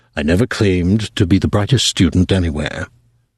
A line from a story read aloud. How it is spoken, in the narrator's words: he said quietly, but obviously hurt